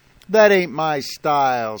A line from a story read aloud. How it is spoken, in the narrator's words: said Casey